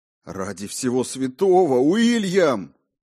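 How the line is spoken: Shouting. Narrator (Russian): закричал я

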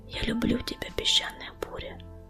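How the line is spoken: Whisper. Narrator (Russian): прошептал он

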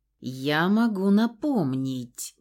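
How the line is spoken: Hissed through clenched teeth. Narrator (Russian): прошипел сквозь плотно стиснутые зубы пернатый

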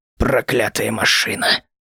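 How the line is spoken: Very quiet grumble. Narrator (Russian): проворчал конвой так тихо, что его услышал только я

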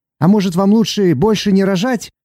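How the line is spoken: Sudden shout, onlooker. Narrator (Russian): один из зевак вдруг крикнул

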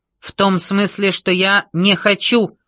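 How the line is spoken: Snapped. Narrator (Russian): огрызнулся Космос

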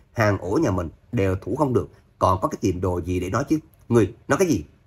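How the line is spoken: Angry loud shout. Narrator (Vietnamese): U Vạn Sơn giận dữ quát lớn

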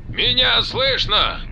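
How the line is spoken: Hoarse, static-filled radio voice. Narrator (Russian): Хрипато, через помехи, донеслось из наушников на русском языке

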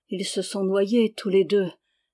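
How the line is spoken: Low voice. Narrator (French): dit-elle à voix basse

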